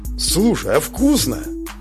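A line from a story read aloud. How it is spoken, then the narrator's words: Surprised exclamation. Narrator (Russian): удивленно воскликнула Зарина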